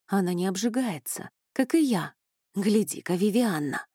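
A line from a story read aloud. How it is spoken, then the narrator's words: Whisper. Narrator (Russian): прошептал Эней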